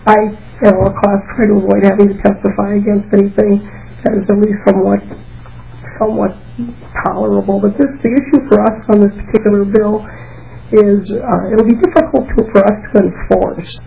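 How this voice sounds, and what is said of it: Squeaky voice with a cold. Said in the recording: “I have a cold, so you'll just have to kind of tolerate my squeaky voice.”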